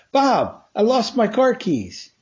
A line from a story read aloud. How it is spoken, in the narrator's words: excitedly shared